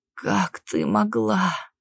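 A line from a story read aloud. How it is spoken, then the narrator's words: Hoarse wheeze. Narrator (Russian): Захрипел Кристен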